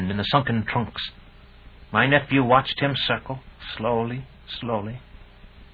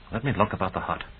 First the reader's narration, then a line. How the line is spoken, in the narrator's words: whispered back